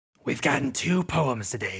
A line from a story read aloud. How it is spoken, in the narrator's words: she mutters